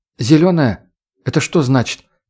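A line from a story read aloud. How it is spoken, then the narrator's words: Quiet question. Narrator (Russian): тихо спросила Татьяна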